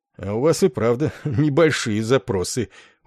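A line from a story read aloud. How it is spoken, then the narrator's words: Smirking, holding back laughter. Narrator (Russian): ухмыльнулся Ессариан и едва не расхохотался подполковнику Корну в лицо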